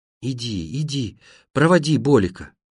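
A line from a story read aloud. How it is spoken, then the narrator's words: Mother's tearful voice. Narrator (Russian): Моя мать говоря плачущим голосом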